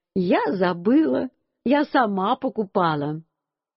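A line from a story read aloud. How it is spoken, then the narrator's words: Laughing mother. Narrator (Russian): Мама тоже засмеялась и говорит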